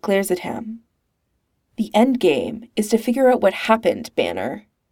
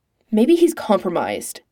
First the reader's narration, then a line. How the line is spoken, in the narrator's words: Natasha snaps